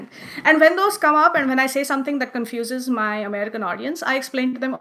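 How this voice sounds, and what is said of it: Indian English accent. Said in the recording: “I'm going to speak Indian English ... I have this accent”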